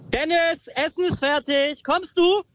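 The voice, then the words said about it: Mother shouting upstairs, rising pitch. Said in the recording (German): “Mit der Stimme auch so hochgehen, so kommst du? ... So Treppen hochschreien ... richtig eigentlich Druck machen”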